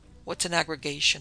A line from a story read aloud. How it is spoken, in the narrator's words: I murmured